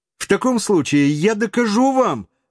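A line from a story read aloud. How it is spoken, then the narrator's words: Agitated exclamation. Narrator (Russian): воскликнул географ, всегда волновавшийся, когда ему противоречили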